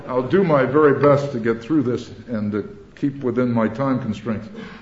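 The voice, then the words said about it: Very fast speech with an accent. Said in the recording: “what I'm doing is speaking very fast, which I do anyway, and with my accent”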